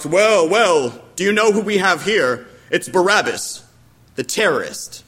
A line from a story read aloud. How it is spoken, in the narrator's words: He scoffed